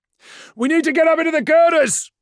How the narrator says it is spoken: shouted

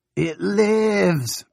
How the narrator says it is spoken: Benny cried

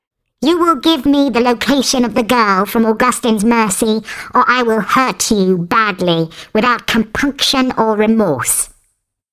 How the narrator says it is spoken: He said in his shrill, warbling voice

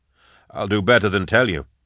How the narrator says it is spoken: I said

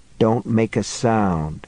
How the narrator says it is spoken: he murmured

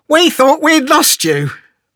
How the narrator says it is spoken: Tegan exclaimed

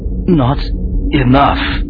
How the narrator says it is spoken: she said, her voice fading

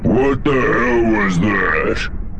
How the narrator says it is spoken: Pan growled

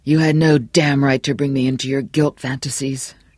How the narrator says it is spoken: Johnny said thickly

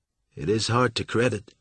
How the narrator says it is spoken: said Jurger

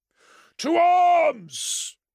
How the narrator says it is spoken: roared Vandus

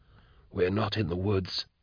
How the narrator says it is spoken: he whispered

